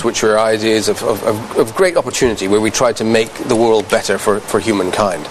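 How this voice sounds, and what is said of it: British accent. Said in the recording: “Oh, he's British. ... He speaks with a British accent”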